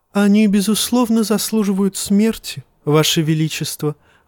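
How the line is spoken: Sighing. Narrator (Russian): вздохнул Варис

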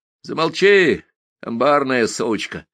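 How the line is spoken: Distant voice from deep below. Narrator (Russian): раздалось в ответ где-то глубоко внизу, как бы под землею

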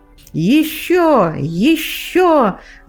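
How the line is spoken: Breathless emotional shouting. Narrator (Russian): задыхаясь от прилива неведомых чувств, кричала

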